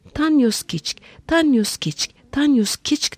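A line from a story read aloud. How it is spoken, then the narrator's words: Heard shouting. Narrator (Turkish): diye bağırdığı duyuldu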